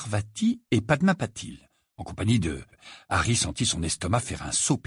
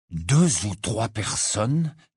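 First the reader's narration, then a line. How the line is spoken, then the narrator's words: Hoarse voice. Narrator (French): dit Harry d'une voix rauque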